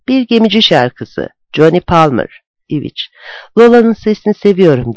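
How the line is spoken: Plain. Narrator (Turkish): dedi

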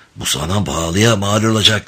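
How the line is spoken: Whispered. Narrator (Turkish): diye fısıldadı

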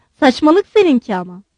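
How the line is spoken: Angry woman. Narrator (Turkish): Generalin karısı öfkeyle

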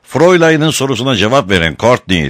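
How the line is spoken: Shouted. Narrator (Turkish): diye bağırdı

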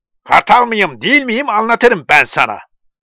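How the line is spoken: Crying out. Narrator (Turkish): diye haykırıyordu

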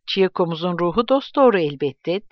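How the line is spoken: Plain. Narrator (Turkish): dedi

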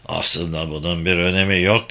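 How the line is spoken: Quietly. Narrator (Turkish): dedi Yuna sessizce

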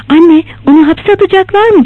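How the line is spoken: Cried out. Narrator (Turkish): diye haykırdı

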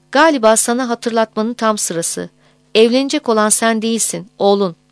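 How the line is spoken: Harsh, stern voice. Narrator (Turkish): dedi Lütfi sert bir sesle

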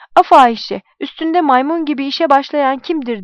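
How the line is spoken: Shouting. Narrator (Turkish): diye bağırdı

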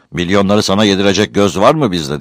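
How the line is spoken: Shouted. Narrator (Turkish): diye bağırdı

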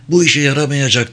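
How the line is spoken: Crying out. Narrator (Turkish): diye haykırdı Travis

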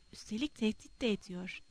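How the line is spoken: Muttering. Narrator (Turkish): diye mırıldandı

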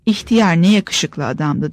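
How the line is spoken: Plain. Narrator (Turkish): dedi

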